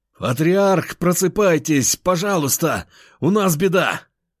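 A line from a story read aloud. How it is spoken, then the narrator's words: Shouting. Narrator (Russian): выкрикнул он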